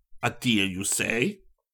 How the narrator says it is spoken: Vignelli asked sharply

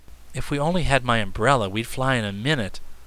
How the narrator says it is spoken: sighed Button Bright

